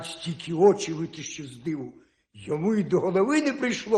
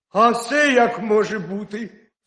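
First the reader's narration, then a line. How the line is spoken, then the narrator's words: Cry, hare. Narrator (Ukrainian): скрикнув заєць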